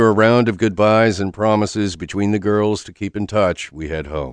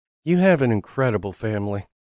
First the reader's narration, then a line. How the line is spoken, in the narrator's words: says softly